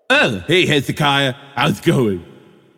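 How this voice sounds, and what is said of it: Cartoon character voice. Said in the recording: “does the problematic voice ... He's Homestar Runner ... you do that voice”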